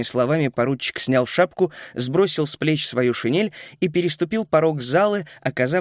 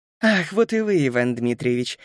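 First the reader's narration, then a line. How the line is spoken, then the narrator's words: Laughing. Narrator (Russian): засмеялась та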